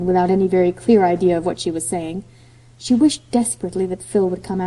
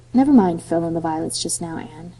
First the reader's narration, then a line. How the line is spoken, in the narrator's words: said Gilbert quietly